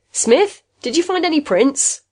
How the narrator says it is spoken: He turned and shouted

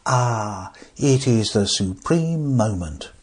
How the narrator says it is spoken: he said softly

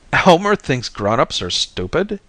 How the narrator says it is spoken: I howled

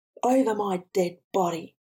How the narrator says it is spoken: screamed Umbra into the hot wind

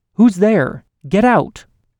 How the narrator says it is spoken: shouted louder

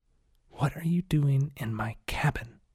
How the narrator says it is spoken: She hissed

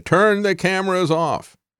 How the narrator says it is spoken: Trump shouted

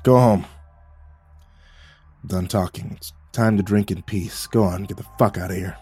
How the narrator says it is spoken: He croaked

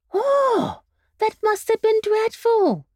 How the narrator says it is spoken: cried the Candy Rabbit

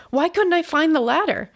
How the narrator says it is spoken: I gasped

